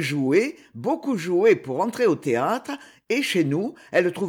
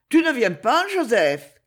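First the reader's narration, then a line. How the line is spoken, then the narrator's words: Shouted. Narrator (French): cria Stanislas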